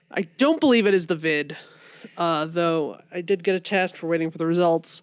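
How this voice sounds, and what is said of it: Congested voice from a cold. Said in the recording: “I have a little bit of a cold. ... If I sound a little off, that's why. ... I've just been really congested.”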